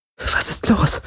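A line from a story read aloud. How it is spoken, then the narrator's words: Uncertain whisper. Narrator (German): flüsterte, spürbar unsicher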